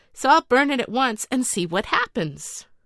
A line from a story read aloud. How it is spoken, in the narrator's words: he exclaimed